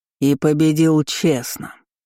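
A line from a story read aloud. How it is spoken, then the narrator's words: Thundered. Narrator (Russian): прогремел зеленоглазый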